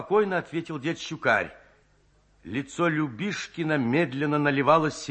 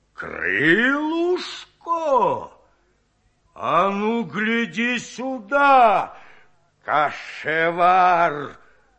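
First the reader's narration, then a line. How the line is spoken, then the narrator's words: Growled. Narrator (Russian): зарычал он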